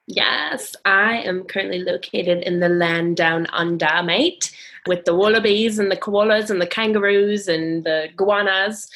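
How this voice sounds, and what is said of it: Weak put-on Australian accent. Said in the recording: “If I would have done that in front of an Aussie, they would have said I did a terrible job ... I'm still working on my Australian accent.”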